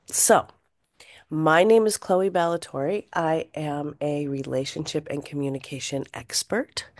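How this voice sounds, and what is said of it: Raw, congested voice. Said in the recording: “excuse my voice is a little raw, from the smoke, and I'm a little congested”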